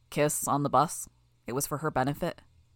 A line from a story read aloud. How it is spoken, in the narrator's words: I swallowed hard, in an effort to get my voice more normal